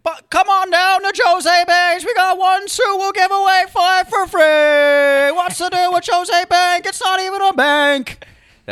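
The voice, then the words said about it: Jerry Seinfeld impression. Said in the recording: “do a Jerry Seinfeld impression of a guy doing a Jose Banks suits commercial”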